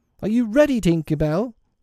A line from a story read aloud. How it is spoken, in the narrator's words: He called out